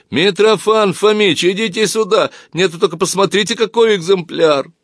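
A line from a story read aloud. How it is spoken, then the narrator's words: Shouting while laughing. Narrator (Russian): продолжая смеяться, закричал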